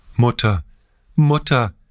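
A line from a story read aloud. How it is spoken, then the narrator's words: Sobbing, broken cry. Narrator (German): rief er mit einer von schluchzenden Tränen unterbrochenen Stimme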